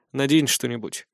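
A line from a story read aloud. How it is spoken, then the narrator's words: Dry curt tone. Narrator (Russian): сухо произнёс я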